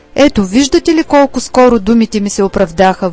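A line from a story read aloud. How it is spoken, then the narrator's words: Exclaiming. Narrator (Bulgarian): възкликнал някой от гостите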